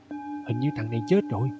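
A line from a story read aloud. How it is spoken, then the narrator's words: Startled, soft. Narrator (Vietnamese): Hắn giật mình nói khẽ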